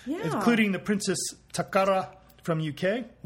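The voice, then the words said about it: Put-on Asian accent. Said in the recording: “I gave that a Asian accent”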